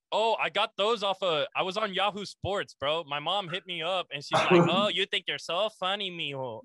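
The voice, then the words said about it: Latin American accent. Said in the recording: “are you some type of Latin? Because your accent, you can hear the Latin.”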